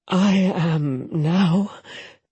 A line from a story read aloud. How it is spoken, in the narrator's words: Jetta moaned